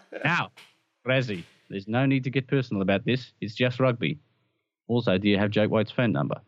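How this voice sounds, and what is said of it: Put-on South African accent, slipping French. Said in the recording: “I can't believe I managed to hold that accent... it went a bit Inspector Clouseau on Jake White... I hadn't thought how you pronounce phone number in South Africa”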